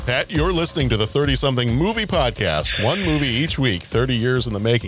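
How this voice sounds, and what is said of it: Announcer voice. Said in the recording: “I went straight into announcer voice there.”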